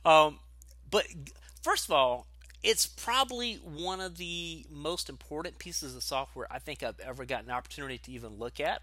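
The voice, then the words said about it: Southern American accent. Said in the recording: “we'll blame it on the Southern accent here”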